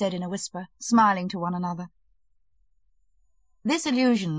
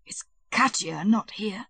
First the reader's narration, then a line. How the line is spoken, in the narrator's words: he gasped